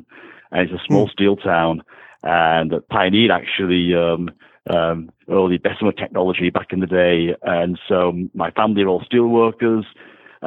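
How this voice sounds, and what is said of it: Northwest English accent. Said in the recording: “I take it you are not originally from Northern California. ... I grew up in the northwest of England”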